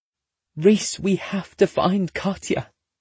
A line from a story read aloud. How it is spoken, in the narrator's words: Grant pleads